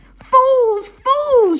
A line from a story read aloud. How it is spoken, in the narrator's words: shouted Benjamin